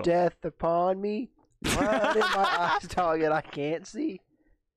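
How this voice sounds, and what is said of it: Imitates another person's voice. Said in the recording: “my impression of 50 Cent”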